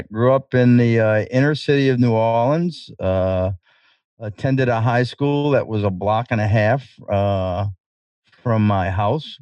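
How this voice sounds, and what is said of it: New Orleans Irish Channel accent. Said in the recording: “you've got a unique accent. I believe you call it Irish Channel. You're from the great city of New Orleans”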